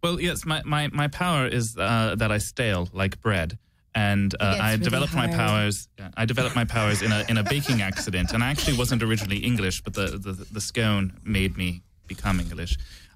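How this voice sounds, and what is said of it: Put-on English accent character voice. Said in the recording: “That's his Scone voice, by the way. When he does the English accent, that's the Scone voice.”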